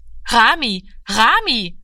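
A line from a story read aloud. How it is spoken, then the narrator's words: Calling after someone. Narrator (German): rief ihm nach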